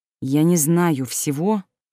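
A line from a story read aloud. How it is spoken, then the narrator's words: Through clenched teeth. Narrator (Russian): процедил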